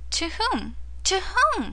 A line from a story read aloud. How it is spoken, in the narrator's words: cried Lise